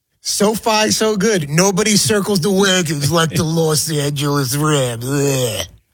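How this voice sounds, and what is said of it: Imitates another person's voice. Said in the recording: “You do it much better Chris Berman in person. ... I'm trying to do the impersonation.”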